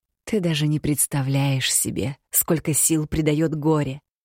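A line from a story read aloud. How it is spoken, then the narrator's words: Insinuating whisper. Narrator (Russian): вкрадчиво прошептала Роксана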